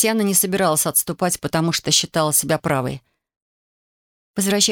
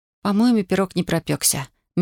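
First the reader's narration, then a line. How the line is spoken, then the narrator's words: Soft remark. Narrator (Russian): мягко заметила она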